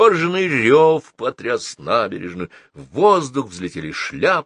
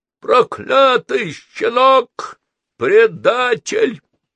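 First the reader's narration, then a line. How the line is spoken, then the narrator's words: Sudden wild scream. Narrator (Russian): вдруг завопил не своим голосом Ричард Буги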